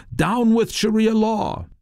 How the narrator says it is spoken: Dozens shouting

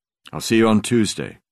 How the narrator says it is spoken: I said

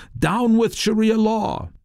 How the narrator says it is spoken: Dozens shouting

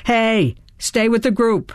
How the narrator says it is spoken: a cop yelled

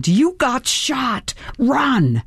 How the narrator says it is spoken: my brain screamed

